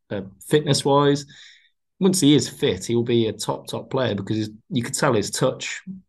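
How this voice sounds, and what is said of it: Black Country / Brummie accent. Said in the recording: “the Black Country, West Midlands, Brummy accent ... you know exactly where he's from when you hear him speak”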